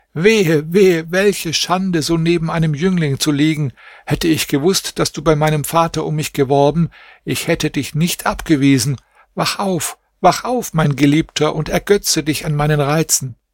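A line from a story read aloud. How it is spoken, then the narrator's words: Screaming. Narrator (German): schrie sie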